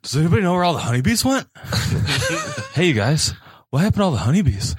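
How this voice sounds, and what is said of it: Mark Wahlberg impression. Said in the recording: “Do your Mark Wahlberg impression. ... It was it's not good.”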